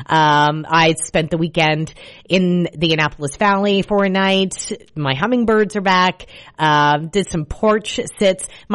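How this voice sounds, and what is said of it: Slightly raspy voice. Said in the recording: “You can probably tell my voice is a little raspy”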